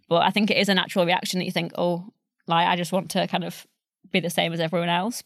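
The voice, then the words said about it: Northern English accent. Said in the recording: “compared to you, I still sound very northern ... I lost my Yorkshire accent completely ... it varies depending on who I'm with, how kind of broad my accent is”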